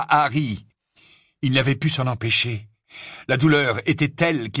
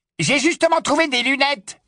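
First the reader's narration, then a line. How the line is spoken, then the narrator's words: Yelped from the darkness. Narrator (French): glapit l'un des rafleurs qui rôdait dans l'obscurité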